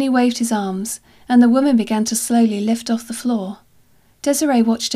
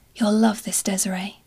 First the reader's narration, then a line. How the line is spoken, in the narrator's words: Max whispered